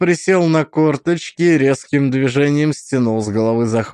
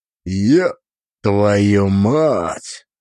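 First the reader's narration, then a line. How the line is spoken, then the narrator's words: Breathy exhale. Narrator (Russian): выдохнул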